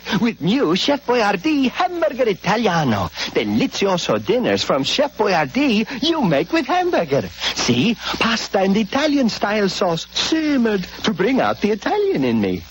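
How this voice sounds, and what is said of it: Exaggerated Italian accent. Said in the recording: “Give your hamburger an Italian accent ... gives hamburger an authentic Italian accent.”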